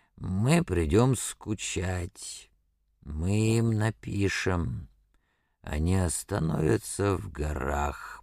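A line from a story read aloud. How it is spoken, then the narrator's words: Incoherent muttering. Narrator (Russian): бормотал он бессвязно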